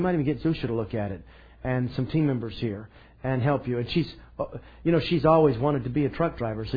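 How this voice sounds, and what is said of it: Usual voice. Nothing is said of it.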